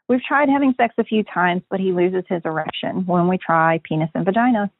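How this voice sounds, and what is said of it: Peeved, annoyed, frustrated tone. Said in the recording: “You sound a little peeved. You sound a little annoyed. ... that peeved, annoyed, frustrated tone ... that tone in your voice”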